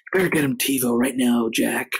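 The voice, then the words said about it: Imitates another person's voice. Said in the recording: “my Matthew McConaughey impression”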